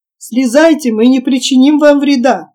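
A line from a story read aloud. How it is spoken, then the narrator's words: Shouted in English and Portuguese. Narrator (Russian): в свою очередь крикнул Джон по-английски и еще раз по-португальски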